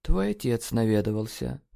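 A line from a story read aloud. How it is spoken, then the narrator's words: Muffled, flat. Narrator (Russian): глухо сообщила она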